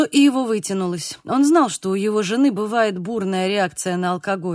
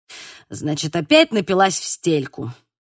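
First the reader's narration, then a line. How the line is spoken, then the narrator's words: Angry. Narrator (Russian): зло сказал Ива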